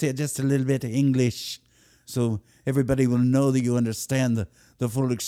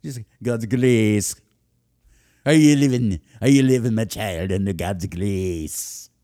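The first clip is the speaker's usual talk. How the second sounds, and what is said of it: Put-on Scottish accent. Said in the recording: “maybe a little Scottish in there ... when you start doing things with a Scottish accent, it's serious shit”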